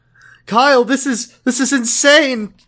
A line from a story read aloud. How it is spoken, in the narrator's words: Jesse pleaded